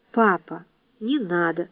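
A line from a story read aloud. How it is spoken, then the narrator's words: Quiet. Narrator (Russian): тихо проговорила Ева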